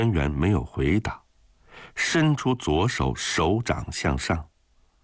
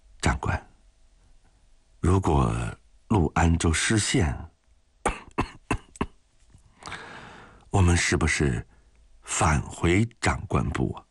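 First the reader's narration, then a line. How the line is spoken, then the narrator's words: Soft, quiet. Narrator (Chinese): 汪银庚轻声地说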